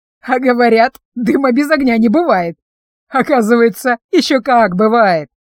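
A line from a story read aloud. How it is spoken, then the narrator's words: Hoarse, calming down. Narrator (Russian): прохрипела Фима, немного успокоившись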